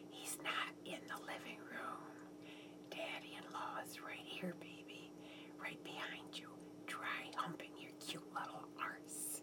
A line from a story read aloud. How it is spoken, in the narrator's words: a whisper in my ear